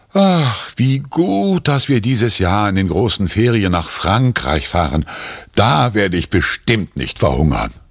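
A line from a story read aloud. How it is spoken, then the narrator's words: Relieved sigh. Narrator (German): Erleichtert seufzt Papa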